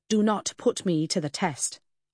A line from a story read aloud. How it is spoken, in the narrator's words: I warned